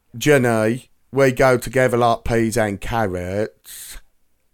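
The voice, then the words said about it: Attempted accent drifting into London. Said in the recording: “You sound like you're doing my impression there. That went, you went London.”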